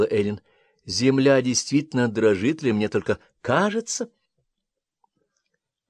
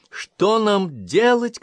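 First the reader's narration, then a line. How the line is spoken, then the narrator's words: Shouting. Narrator (Russian): кричала Эйлин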